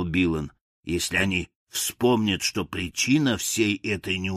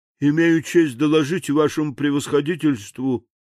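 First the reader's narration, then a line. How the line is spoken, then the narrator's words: Gloomy, dejected. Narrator (Russian): уныло начал он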